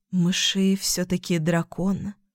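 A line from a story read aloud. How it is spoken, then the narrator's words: Rustling, autumnal voice. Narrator (Russian): прошелестела она своим осенним голосом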